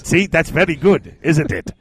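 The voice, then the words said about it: Fantasy dwarf voice, Eastern European-sounding. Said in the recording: “That's a great impression ... Are you Yugoslavia now? ... No, it's my dwarf impression”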